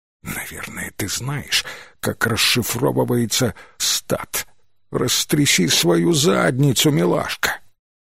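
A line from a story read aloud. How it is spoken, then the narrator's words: Whisper in ear. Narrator (Russian): Ординатор, стоявший рядом с Пейдж, прошептал ей на ухо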